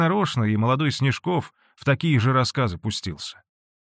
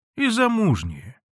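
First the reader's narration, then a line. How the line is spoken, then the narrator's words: Calm reply. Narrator (Russian): спокойно ответил Данила Тихоныч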